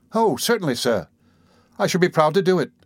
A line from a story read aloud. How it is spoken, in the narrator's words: exclaimed Oliver, greatly delighted with the commission